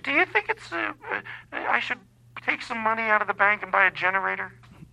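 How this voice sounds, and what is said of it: Put-on mom voice. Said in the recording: “I'm doing a mom voice, but that's not how my mom talks.”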